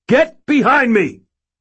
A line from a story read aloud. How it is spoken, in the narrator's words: I shouted to the spook squad